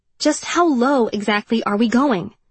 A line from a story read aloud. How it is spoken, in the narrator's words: she said sharply